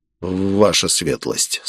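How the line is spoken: Strained, forced out. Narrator (Russian): с трудом выдавил я

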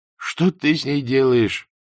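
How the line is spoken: Strained forced words. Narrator (Russian): выдавил он из себя

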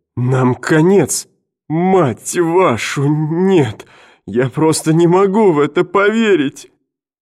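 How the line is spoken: Sobbing. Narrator (Russian): И он зарыдал

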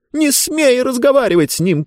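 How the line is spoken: Book shouting. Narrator (Russian): крикнула книга

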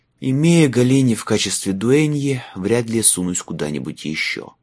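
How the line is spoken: Sighing. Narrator (Russian): вздохнул Майлз

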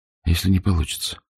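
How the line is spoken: Whisper. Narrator (Russian): шепнула Криста

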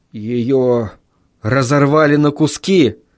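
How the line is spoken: Hoarse rasp. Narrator (Russian): прохрипел я

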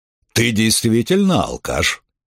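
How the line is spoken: Thoughtful, big man. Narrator (Russian): задумчиво сказал крупный мужчина

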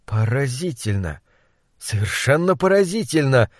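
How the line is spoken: Hoarse voice. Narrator (Russian): сипло выговорил он

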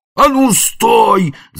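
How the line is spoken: Old man yelling. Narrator (Russian): заорал старец

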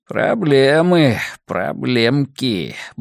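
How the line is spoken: Muttering. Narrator (Russian): бормотал Хаб

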